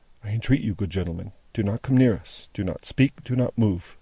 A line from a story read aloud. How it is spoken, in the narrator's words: only said, in a low voice